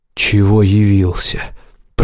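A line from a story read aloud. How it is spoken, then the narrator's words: Growl. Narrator (Russian): прорычал Берас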